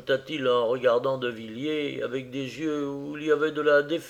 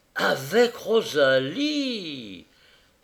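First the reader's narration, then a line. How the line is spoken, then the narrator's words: Incredulous exclamation. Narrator (French): s'écria Destroy qui semblait n'en pas croire ses oreilles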